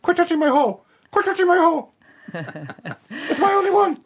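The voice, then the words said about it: Comic animal character voice. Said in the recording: “this is a lyrebird impersonating a platypus.”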